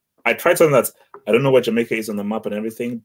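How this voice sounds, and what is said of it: African accent. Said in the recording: “you had an African accent ... You can clearly hear from my voice that my accent has nothing to do with Jamaican”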